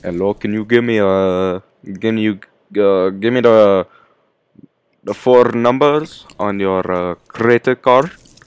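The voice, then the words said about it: Put-on Indian accent, scammer voice. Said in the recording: “Do such a good accent... Are you Indian?... that kind of accent... like a scammer, you know, from India.”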